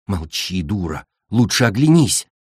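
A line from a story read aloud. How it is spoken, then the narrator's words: Whisper. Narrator (Russian): шепнула цунами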